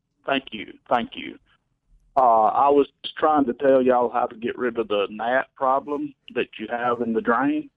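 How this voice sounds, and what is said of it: Mississippi-sounding Southern accent. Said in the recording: “your accent sounds strangely Mississippi”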